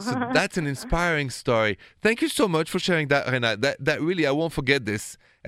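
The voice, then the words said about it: Thick French accent. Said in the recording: “with my thick French accent”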